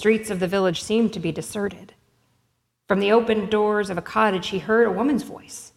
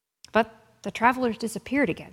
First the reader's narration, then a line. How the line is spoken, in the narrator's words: she said